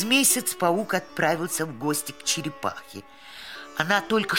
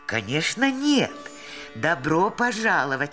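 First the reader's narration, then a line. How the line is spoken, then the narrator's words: Plain. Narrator (Russian): ответила черепаха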